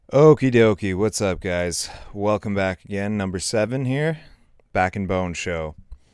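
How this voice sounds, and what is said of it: Tired, worn-out voice. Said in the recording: “you can hear it in my voice. I am shot out. It was rough.”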